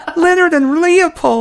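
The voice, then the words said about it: Imitates another person's voice. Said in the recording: “That's a spot-on impression of your wife I just did”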